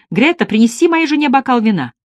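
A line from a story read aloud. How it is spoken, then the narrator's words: Shout. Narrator (Russian): Потом он крикнул мне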